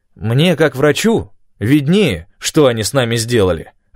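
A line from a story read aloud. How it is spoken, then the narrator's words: Snapping retort. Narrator (Russian): огрызнулся Док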